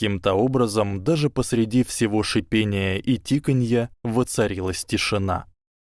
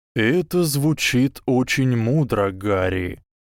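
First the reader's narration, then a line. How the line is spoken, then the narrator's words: Slow. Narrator (Russian): медленно произнес директор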